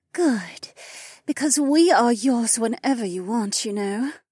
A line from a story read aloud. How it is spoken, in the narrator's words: the blonde purred